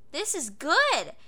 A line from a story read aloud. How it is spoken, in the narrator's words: Alfred exclaimed after taking another bite